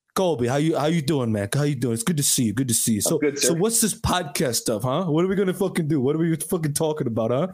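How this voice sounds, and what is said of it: Imitates another person's accented voice. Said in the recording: “He's not a Chicago Italian ... where does the fucking accent come from? It's so funny.”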